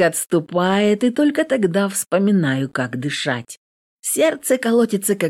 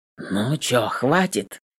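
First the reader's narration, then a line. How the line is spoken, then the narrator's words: Hoarse question. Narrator (Russian): хрипло интересуется Волков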